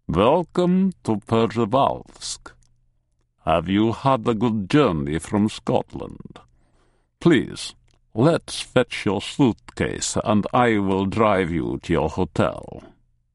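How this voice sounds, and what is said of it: Heavy Russian accent. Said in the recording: “He speaks English with a heavy Russian accent.”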